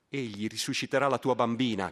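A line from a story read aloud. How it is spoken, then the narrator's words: Crowd shouting. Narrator (Italian): gridano dalla folla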